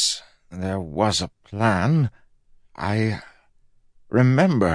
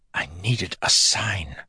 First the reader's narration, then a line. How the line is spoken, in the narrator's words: Fuzz whispered